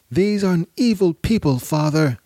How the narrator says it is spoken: shouted his oldest son, Ali al-Akbar, or Ali the Elder

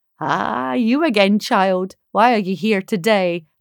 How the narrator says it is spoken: asked December

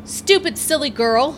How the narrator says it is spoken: yelled an American soldier

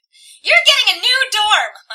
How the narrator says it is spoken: my mother yells

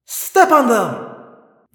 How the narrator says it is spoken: Visser 3 cried triumphantly

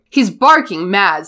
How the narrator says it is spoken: said Seamus Finnegan angrily to Percy

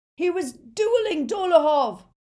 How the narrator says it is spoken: shouted Aberforth

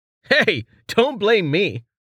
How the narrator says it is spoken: Rain said, struggling to contain his laughter

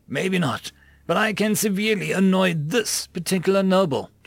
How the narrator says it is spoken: Jake said, chuckling

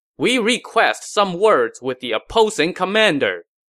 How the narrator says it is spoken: A scout rode out from the Wei lines to the front and shouted

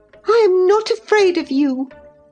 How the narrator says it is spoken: exclaimed Catherine

